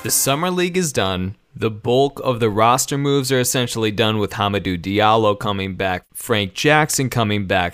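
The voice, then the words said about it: Worn-out, strained voice. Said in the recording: “My voice is dead”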